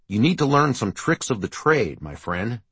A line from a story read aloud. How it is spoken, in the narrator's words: Keith had said